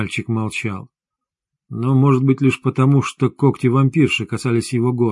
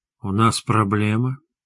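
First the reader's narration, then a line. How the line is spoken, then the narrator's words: Purring question. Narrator (Russian): мурлычащим голосом спросила тигренок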